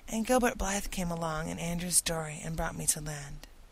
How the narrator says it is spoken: explained Anne wearily

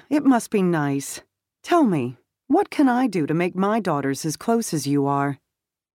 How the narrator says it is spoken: Her tone was light

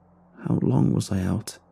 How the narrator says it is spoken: I mumbled

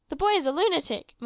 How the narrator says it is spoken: muttered the master

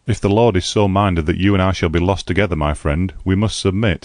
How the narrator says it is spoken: I replied

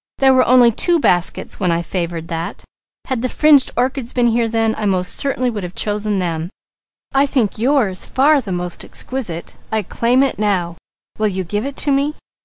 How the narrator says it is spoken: cried Douglas

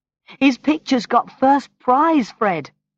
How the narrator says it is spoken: she cried

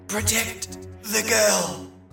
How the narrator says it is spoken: managed to wheeze out despite the hold on his neck

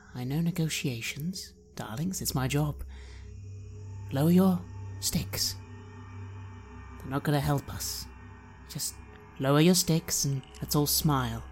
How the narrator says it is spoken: I remark gently

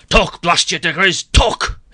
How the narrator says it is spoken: roared

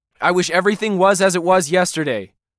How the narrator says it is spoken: Ken blurted out

